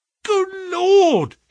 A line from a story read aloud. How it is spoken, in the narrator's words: cried